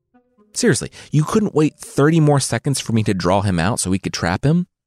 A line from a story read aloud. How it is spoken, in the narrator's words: Pigsy shouted